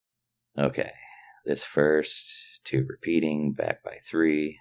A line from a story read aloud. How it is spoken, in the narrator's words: mumbled